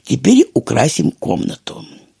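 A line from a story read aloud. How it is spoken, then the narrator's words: Soft kindly voice. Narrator (Russian): сказал мягко добрый Дрема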